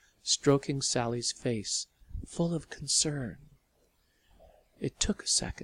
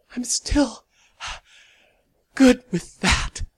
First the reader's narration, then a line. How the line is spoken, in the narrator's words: Sally gasped, crying with relief